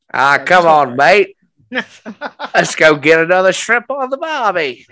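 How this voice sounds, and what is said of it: Put-on Australian accent, drifting British. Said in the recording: “Australian impressions ... I'm still stuck in British Isles. That's all I got.”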